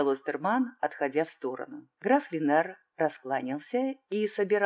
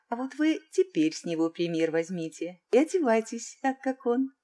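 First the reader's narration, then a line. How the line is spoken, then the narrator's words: Cheerful, playful. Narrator (Russian): весело подмигнула цесаревна Остерману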